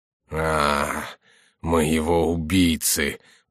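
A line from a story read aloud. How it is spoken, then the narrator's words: Groaning in pain and anger. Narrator (Russian): проговорил Монсоро, застонав от боли и от злобы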